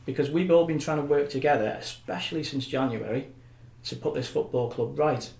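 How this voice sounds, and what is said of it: Emotional, strained speaking voice. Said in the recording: “I'm getting a bit emotional here”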